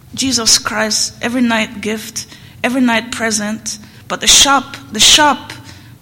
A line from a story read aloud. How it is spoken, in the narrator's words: His voice cracked